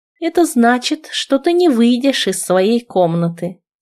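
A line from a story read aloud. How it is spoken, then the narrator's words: Very calm. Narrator (Russian): сказала она очень спокойно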